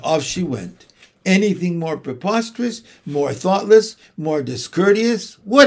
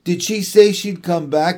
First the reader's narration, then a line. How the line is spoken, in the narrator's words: he cried